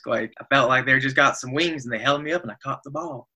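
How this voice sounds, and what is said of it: Bad Matthew McConaughey impression. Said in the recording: “terrible McConaughey impression”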